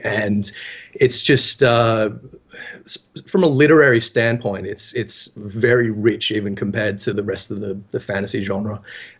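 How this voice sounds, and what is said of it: Husky voice from a cold. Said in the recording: “I'm a bit husky today ... I've got a bit of a cold”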